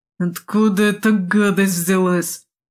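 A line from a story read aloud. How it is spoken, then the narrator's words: Moaning. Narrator (Russian): простонал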